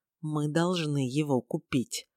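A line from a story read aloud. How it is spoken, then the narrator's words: Werewolf mouthing quietly. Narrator (Russian): оборотень тихо одними губами сказал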